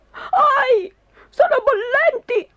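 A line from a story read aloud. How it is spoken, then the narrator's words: Shrieked. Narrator (Italian): strillò Cedrino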